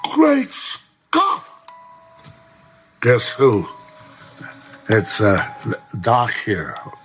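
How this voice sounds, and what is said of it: Doc Brown impersonation. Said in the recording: “Or a pretty good impersonator, I'll tell you that.”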